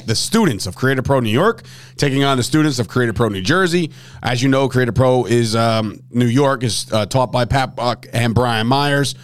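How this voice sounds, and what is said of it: Hoarse, strained voice. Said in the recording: “losing my voice again. ... my voice is shot”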